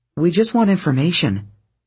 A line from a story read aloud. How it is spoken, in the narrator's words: Piper said in her most calming voice